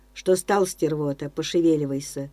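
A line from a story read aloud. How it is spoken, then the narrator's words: Grumbling. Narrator (Russian): Заворчал сиворыжий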